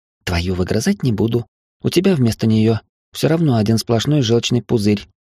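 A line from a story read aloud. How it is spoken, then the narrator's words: Innocent retort. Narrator (Russian): невинным тоном парировала Мина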